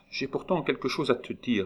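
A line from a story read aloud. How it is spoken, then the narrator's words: Murmured. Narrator (French): murmura-t-elle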